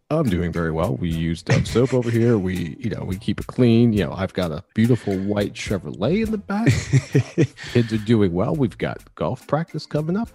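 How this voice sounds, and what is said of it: Exaggerated polished NPR-style radio voice. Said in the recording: “We got to do the NPR voices. ... Not Anglo enough. ... That's very well done. You're taking it extremely far”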